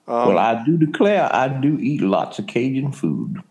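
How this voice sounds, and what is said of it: Good put-on Southern Cajun accent. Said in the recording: “You do a really good Southern Cajun accent kind of there”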